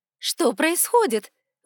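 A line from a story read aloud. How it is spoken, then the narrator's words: Young woman's exclamation. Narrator (Russian): воскликнула девушка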